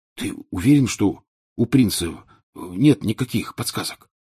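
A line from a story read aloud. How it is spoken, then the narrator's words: Whispered question. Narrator (Russian): шепотом спросил Рон у Гарри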